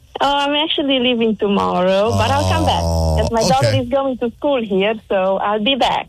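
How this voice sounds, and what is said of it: Romanian accent, slightly Americanized. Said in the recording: “I heard your accent ... my accent is not from Oregon ... It's from Romania. ... You had that little Beaverton thing in there. ... I guess I got a little bit American.”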